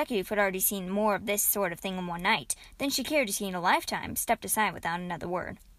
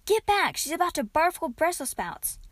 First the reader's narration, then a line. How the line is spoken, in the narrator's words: Kate cried